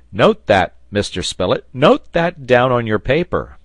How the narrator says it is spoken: At last speech returned to him, and he cried

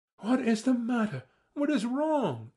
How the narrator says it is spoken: she cried, fussing about me

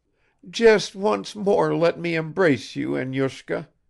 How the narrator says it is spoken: groaned Arina Vlasyevna

